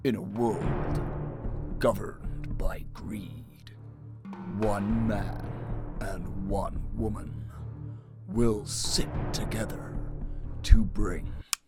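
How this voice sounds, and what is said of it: Dramatic movie trailer announcer voice. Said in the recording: “in my movie trailer voice”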